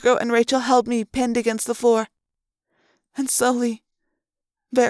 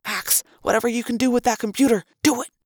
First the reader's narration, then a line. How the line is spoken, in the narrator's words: Marco whispered urgently